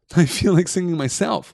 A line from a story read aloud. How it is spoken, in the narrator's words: laughed Frodo